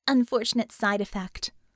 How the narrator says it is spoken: Harm said

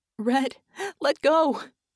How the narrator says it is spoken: she shouted hoarsely

